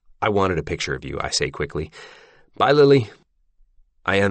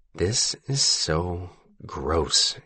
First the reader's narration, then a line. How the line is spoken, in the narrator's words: he mutters